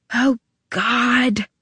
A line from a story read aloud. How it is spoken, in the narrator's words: Tabby whispered, and her words were not filled with ice